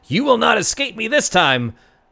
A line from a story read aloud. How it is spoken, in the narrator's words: Delane, behind you, hear a yell saying